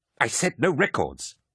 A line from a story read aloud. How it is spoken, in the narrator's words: Emont snapped